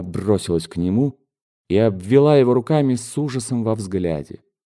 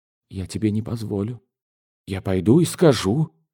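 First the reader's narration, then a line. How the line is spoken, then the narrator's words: Desperate whisper. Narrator (Russian): прошептала она в отчаянии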